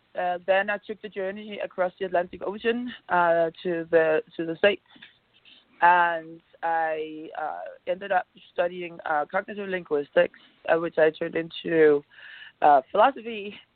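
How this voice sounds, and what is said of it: Scandinavian-accented English. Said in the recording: “I was born in Copenhagen, as you might have guessed, if you can hear my accent, in Scandinavia.”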